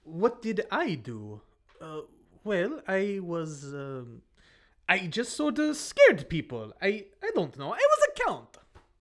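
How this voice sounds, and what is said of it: Cheesy put-on accent. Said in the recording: “can you lose the cheesy accent”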